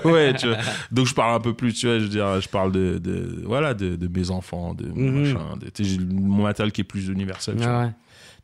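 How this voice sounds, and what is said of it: French-from-France accent. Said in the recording (French): “t'as un accent français ... j'ai un accent partout. Dans n'importe quelle langue que je parle, j'ai un accent.”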